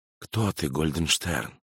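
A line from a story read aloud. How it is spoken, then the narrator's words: Whisper. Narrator (Russian): прошептал кукуратор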